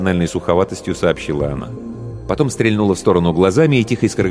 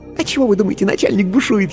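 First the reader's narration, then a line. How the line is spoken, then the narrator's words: Giggling whisper. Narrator (Russian): хихикнув, шепнула она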